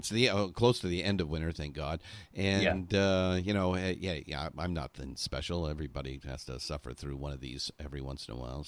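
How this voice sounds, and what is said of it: Voice affected by a cold. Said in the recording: “I'm a little under the weather. ... I've got a little bit of a cold,”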